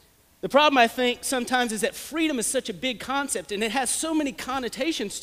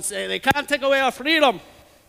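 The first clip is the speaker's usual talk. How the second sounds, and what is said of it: Bad Scottish accent, William Wallace. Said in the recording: “channel our inner Mel Gibson, William Wallace ... which is a terrible Scottish accent”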